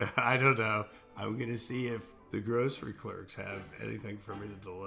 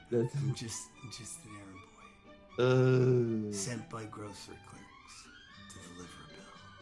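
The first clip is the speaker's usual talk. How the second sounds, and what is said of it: Imitates another person's voice. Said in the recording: “That was like ... doing a Marlon Brando impersonation.”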